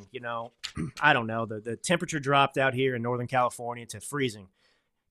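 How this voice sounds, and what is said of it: Rough voice with throat clearing. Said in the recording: “sorry for my voice and all the throat clearing”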